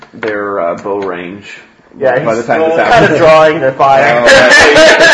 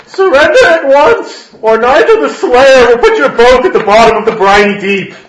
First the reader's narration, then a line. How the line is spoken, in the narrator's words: Nigel yells out